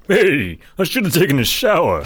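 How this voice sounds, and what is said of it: Impression of a cartoon character voice. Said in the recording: “give us your best impression ... That was Mrs. Krabappel from The Simpsons. ... That does sound like the Rodney Dangerfield that was on The Simpsons ... that's my Simpsons Dangerfield.”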